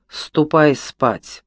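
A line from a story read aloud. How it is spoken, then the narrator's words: Distracted irritated grumble. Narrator (Russian): Погруженный в глубочайшие раздумья, Лафма раздраженно проворчал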